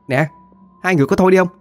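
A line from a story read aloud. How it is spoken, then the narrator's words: Annoyed shout. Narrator (Vietnamese): Cô Tư bực mình la lên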